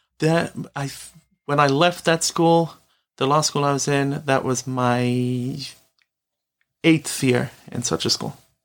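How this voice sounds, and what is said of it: British accent. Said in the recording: “From your accent, I can tell you're originally British.”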